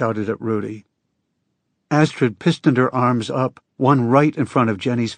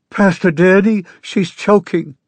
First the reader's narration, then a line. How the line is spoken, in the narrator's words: Jenny cried